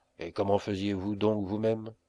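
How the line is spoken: Plain. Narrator (French): demanda Melmotte

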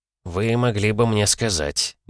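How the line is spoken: Grumble. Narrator (Russian): буркнул Мортон

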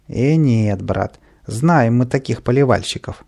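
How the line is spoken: Plain, gardener. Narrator (Russian): ответил садовник

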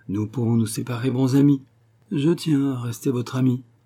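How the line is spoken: Melancholy tone. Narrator (French): dit d'un ton mélancolique

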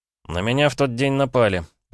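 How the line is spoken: Reluctant grumble. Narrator (Russian): пробурчал, понимая, что некоторые детали все же придется рассказать

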